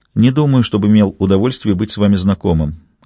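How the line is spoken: Polite, indifferent tone. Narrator (Russian): ответил он вежливо равнодушным тоном

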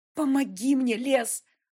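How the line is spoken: Pleading. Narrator (Russian): взмолилась

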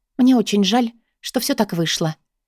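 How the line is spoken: Quiet, sincerely regretful. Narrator (Russian): тихо говорю я с искренним сожалением

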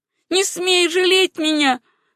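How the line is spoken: Shouted. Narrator (Russian): крикнула Сюзанна

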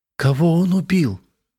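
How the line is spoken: Strained forced words. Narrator (Russian): выдавила из себя Мария

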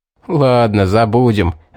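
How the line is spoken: Laughing. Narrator (Russian): рассмеялся Стоун

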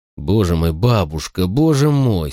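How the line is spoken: Moaning. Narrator (Russian): стонал я

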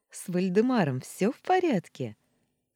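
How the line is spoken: Question after laughing. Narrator (Russian): спросила Фло, когда отсмеялась

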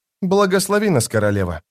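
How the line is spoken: Plain, young man. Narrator (Russian): сказал юноша

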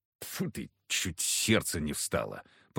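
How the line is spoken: Grumbling. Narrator (Russian): проворчал Егор

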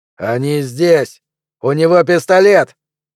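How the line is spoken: Shouting. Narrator (Russian): крикнул вошедший

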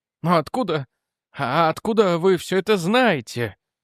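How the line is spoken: Breathless. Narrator (Russian): выдохнул Рент

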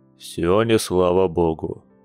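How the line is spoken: Gloomy grunt. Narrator (Russian): мрачно хмыкнул он

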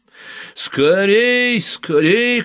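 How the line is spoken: Nasty alpha-male shout. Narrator (Russian): кричал он противным голосом альфа-самца

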